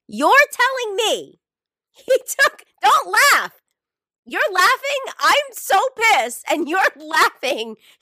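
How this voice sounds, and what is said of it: Screaming. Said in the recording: “I'm screaming ... I know I'm screaming.”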